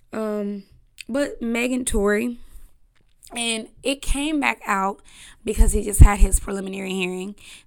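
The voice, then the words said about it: Strained, fading voice. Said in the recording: “My voice is going out and I'm trying to push through. I need to go get me a Ricola.”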